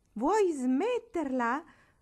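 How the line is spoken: Angry shout. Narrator (Italian): gridò rabbiosamente

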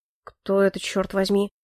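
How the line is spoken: Muttering. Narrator (Russian): пробормотал Ильфорд

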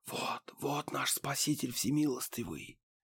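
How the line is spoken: Continuous crowd whisper. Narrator (Russian): По вереницам кулугуров пронесся беспрерывный шепот

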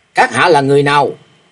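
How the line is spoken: Frantic shouted question. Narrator (Vietnamese): Thạch Mộng điên cuồng nhào tới quát hỏi

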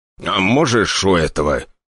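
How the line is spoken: Growl. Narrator (Russian): Николай Григорьевич даже рыкнул

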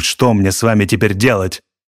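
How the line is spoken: Barking shout. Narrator (Russian): гаркнул он

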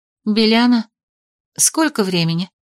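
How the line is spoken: Sleepy question. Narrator (Russian): Сонно поинтересовалась я

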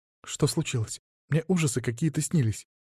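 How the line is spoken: Frightened. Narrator (Russian): испуганно произнесла Вика

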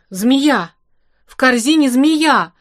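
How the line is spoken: Yelling. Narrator (Russian): завопил Лимбах

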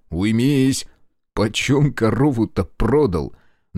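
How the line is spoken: Choking hoarse wheeze. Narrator (Russian): Давясь, просипел Карпин

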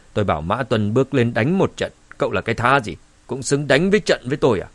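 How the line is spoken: Cold, contemptuous. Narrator (Vietnamese): Cao Hùng nhíu mày lạnh lùng nói

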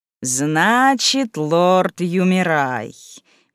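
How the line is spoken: Meaningful drawl, lady. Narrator (Russian): многозначительно протянула леди сапфирового клана

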